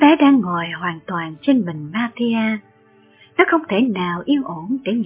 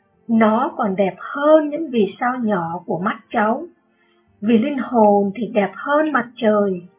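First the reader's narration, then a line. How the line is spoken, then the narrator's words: Smiling reply. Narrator (Vietnamese): Người môn đệ mỉm cười và trả lời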